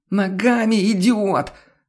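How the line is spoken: Hoarse shrieking reply. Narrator (Russian): Сорвавшись на хриплый визг, откликнулся голос

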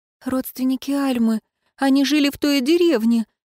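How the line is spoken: Trembling voice. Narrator (Russian): дрогнувшим голосом сказала Ароника

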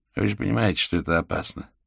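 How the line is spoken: Perfectly normal voice. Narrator (Russian): абсолютно нормальным голосом произнес он

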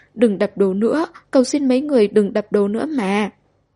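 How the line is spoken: Crying, pleading. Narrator (Vietnamese): A Khởi khóc lóc

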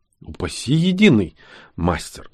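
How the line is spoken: Frightened. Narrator (Russian): испуганно произнес я

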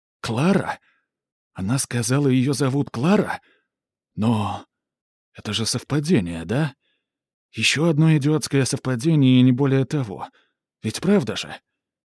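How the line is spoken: Barely audible whisper. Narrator (Russian): Этьен едва слышно прошептал

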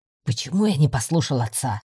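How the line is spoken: Grumbling mutter. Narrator (Russian): пробурчал Рыжик

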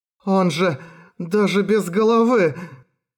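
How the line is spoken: Hoarse wheeze. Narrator (Russian): просипел Минору

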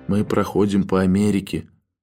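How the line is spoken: Excited whisper. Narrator (Russian): прошептал донельзя взволнованный

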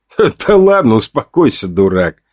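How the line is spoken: Laughing. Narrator (Russian): Я рассмеялся

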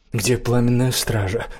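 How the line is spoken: Bewildered speech. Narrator (Russian): растерянно проговорила Лаветта

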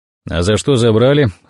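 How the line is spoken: Dry question. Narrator (Russian): сухо спросил Михалыч

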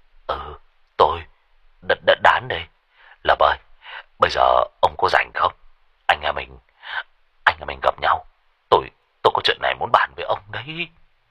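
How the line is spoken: Trembling voice. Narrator (Vietnamese): giọng của Đán run run

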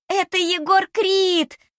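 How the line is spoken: Ecstatic yelling. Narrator (Russian): вопит она с таким восторгом

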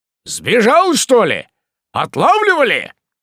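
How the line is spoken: Shouting over engine noise. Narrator (Russian): прокричал он, перекрикивая тарахтение мотора

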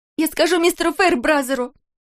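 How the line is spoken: Voice broken by sobs. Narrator (Russian): Услышала Кристал свой голос, прерываемый рыданиями

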